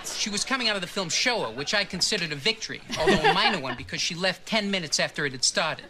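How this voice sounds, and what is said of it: Subtle impression of a filmmaker's voice. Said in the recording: “That's a great impression. ... It's a good subtle impression, ... They pull from a couple Woody Allen things”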